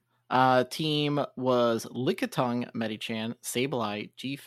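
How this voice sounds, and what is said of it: Usual voice. Nothing is said of it.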